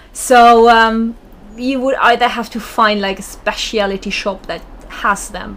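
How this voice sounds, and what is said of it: Slight German accent. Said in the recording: “listeners may have detected a slight accent. ... I am German.”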